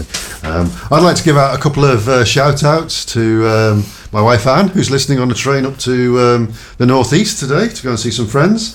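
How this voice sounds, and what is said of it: Scouse Liverpool accent. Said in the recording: “who reckons I sound more Scousy today. But... Than normal.”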